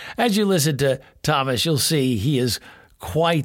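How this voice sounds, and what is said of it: Usual voice. Nothing is said of it.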